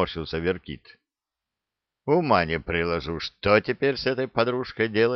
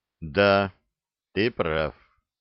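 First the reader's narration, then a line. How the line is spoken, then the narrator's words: Gloomy agreement. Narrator (Russian): мрачно согласился Санти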